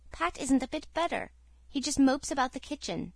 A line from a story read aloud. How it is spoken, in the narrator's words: said the Story Girl anxiously